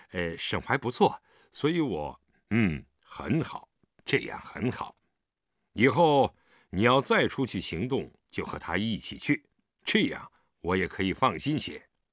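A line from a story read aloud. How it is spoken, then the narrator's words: Embarrassed laugh. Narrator (Chinese): 李元芳不好意思地笑笑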